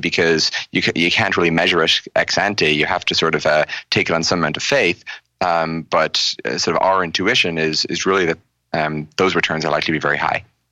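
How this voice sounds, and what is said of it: Irish lilt. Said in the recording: “you have a lilt in your voice because you grew up in Ireland”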